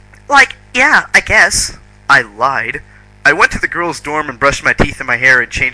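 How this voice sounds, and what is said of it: Usual voice. Nothing is said of it.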